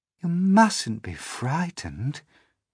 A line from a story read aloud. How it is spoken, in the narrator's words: the ladybird said kindly